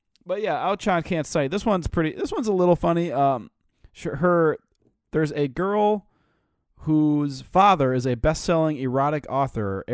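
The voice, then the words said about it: Congested, slightly flat voice. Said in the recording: “I have a little bit of a cold, so it's hard for me to, like, emote”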